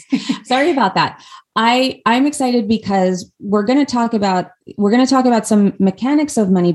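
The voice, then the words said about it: Hoarse, strained voice. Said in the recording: “I'm losing my voice there a little bit. ... I'm losing my voice.”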